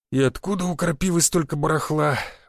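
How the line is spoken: Sighing. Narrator (Russian): вздохнул пивной живот

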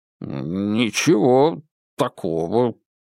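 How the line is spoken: Muttering. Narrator (Russian): пробурчал он

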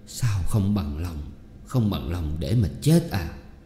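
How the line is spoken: Trembling reply. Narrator (Vietnamese): ông run run đáp

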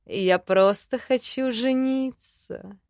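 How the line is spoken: Lazy drawl. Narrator (Russian): лениво протянул Джин

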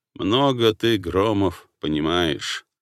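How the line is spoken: Grumbling officer. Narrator (Russian): проворчал прапорщик Лось

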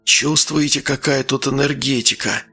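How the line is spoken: Whisper. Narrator (Russian): прошептал Глеб

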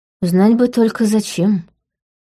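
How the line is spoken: Sighing. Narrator (Russian): вздохнула я

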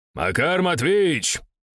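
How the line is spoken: Shouted. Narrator (Russian): крикнул я

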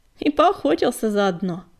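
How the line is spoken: Laughing. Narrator (Russian): засмеялся Крутобок

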